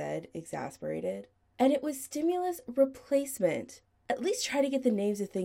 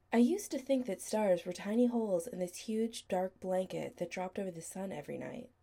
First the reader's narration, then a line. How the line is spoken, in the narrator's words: Chris said quietly